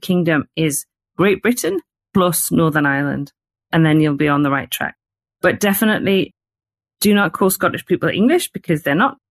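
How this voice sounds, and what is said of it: Northern English accent, not posh. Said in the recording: “you can probably tell from my accent because I don't sound like the Queen ... I'm from the north”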